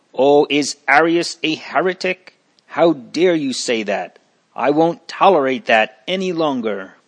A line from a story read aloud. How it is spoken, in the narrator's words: The first one cried